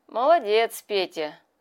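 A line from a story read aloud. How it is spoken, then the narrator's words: Pleased snort. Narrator (Russian): хмыкнул колпак довольно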